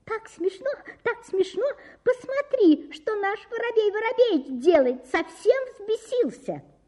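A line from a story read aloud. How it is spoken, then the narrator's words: Tiny high-pitched laughing voice. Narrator (Russian): Синичка засмеялась тоненьким-тоненьким голоском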